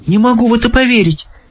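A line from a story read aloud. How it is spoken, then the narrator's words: Girl exclaiming. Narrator (Russian): воскликнула девочка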